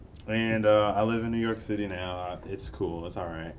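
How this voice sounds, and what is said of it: Texan accent. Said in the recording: “Y'all can hear the accent.”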